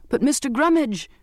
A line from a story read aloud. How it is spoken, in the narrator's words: I called desperately